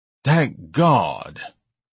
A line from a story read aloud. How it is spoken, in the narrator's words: Ignatius sighed